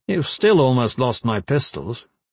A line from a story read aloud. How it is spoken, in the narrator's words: Gavin said